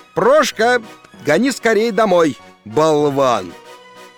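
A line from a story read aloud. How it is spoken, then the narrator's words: Shouted. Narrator (Russian): крикнул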